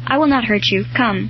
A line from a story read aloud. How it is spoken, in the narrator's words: The boy murmuring this in broken tones